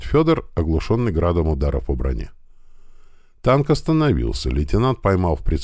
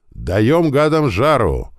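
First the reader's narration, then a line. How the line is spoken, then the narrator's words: Exclaiming. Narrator (Russian): воскликнул Панченко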